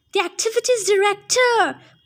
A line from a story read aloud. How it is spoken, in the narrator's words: Clarisse said impatiently